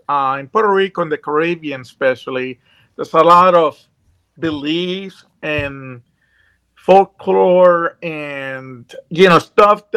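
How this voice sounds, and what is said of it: Puerto Rican accent. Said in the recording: “as you can tell probably from my accent, I grew up in Puerto Rico”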